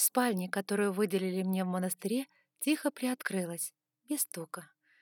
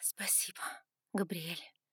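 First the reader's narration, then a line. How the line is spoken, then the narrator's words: Breathless exhale. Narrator (Russian): выдохнула я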